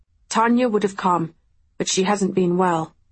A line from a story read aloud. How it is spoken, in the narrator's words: he said